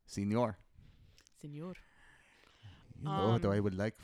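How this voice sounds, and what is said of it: Bad put-on Spanish accent. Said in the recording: “your stupid accent... It's bad... It's a bad accent.”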